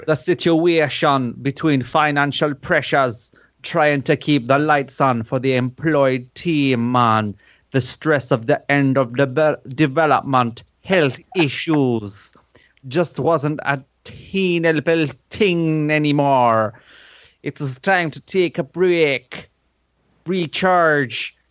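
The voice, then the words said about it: Put-on Jamaican accent slipping into Irish. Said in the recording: “Jamaican accent, let's go for it. ... The fucking Irish has come out. ... Why have you got the Irish?”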